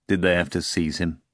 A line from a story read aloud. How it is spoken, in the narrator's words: Pilate asked grimly